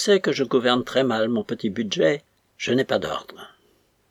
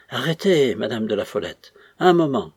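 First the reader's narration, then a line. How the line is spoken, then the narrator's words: Old priest, deep sigh. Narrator (French): fit le vieux prêtre avec un profond soupir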